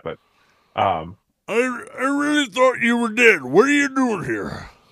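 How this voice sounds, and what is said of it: Imitates another person's voice. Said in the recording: “my best Flair impression”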